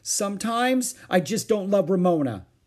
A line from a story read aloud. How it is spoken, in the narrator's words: she blurted out to get it over with